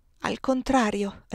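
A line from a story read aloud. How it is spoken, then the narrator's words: Suppressing a sigh. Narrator (Italian): risposi, inghiottendo un sospiro traditore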